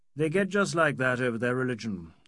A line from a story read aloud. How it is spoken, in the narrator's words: added calmly